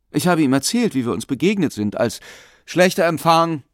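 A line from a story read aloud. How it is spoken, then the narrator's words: Called out. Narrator (German): rief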